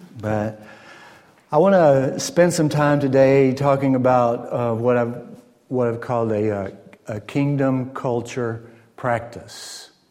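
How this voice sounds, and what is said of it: Southern American accent, slow speech. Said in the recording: “I am a Southern American boy, the South. I'm trying to get you used to my dialect ... However, I do speak slowly.”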